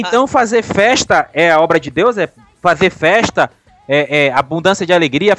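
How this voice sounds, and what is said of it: Usual voice. Nothing is said of it.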